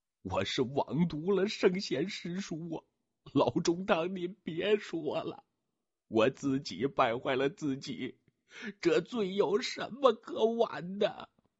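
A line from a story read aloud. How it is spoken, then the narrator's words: Choked, tearful sobbing. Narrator (Chinese): 靳文奎也满脸是泪，也哽咽的不能成声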